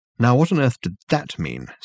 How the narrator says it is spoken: said Dirk, irritably

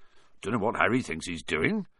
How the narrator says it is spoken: Hagrid mumbled

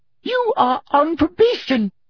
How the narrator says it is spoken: shrieked Professor Umbridge

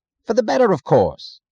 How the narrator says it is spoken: he answered impatiently, as if it were irrelevant

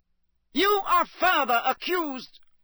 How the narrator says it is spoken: bellowed Mr

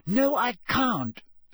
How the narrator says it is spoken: snapped Hermione

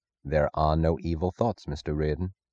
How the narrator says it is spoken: Francisco said softly

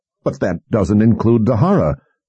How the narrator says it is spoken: General Rybish sputtered

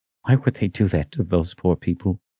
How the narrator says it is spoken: Kaelin answered in a gentle tone

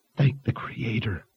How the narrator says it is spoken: Fitch whispered

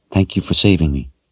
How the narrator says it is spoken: she said softly

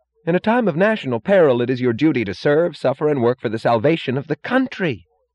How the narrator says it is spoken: Lawson cried suddenly, blindly, righteously

